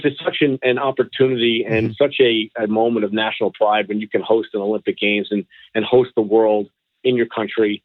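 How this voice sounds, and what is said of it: New York accent. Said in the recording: “your funny New York accent”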